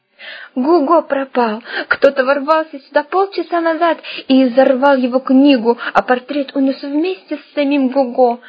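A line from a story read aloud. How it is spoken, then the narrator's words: Sobbing. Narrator (Russian): прорыдала она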